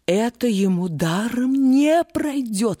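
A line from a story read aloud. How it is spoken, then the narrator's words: Exclaiming, woman. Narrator (Russian): воскликнула она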